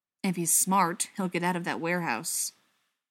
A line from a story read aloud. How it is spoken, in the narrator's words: John said grimly